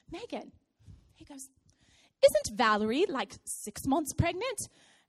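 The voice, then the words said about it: English accent. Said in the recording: “he's from England. I'm going to try to do his accent”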